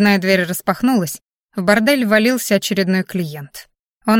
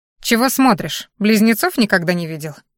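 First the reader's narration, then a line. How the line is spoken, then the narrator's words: Rude question. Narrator (Russian): грубо спросила моя копия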